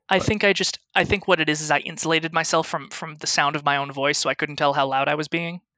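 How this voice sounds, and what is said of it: Strained voice. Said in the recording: “I must have been talking really loud because I can feel my voice is kind of strained now”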